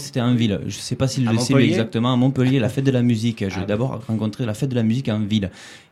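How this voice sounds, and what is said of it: Southern French Aveyron accent. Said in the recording (French): “j'ai un accent qui ne sonne pas de Montpellier exactement. Je suis de Rodez, je suis Aveyronnais.”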